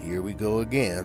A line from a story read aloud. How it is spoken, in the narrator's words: muttered the hard-hatted unicorn